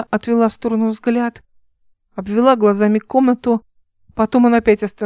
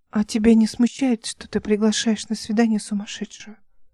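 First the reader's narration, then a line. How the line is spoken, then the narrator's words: Quiet question. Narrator (Russian): тихо спросила она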